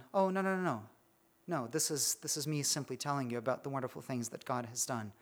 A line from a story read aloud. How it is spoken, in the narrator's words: you just calmly carried on